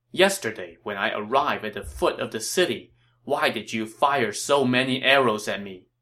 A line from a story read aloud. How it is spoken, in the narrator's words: Cao Cao asked